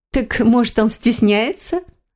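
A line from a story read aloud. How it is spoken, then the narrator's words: Said, then laughing. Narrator (Russian): сказала она и снова захохотала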